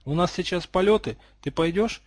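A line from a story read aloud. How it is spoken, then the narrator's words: Timid. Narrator (Russian): робко спросила Гриффиндорка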